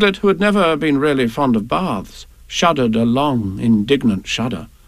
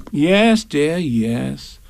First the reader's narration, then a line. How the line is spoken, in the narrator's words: said Kanga soothingly